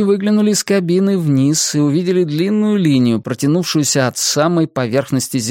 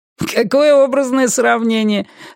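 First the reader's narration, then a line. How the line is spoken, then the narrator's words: Laughing. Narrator (Russian): рассмеялся первый виртуальный гражданин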